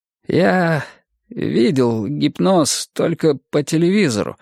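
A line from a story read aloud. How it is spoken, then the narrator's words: Cracked voice. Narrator (Russian): произнес он надтреснутым голосом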